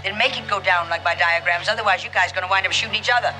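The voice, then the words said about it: Husky transatlantic accent. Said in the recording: “A husky, transatlantic accent,”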